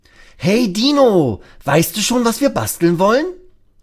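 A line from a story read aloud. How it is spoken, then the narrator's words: Calling out. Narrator (German): ruft Lasse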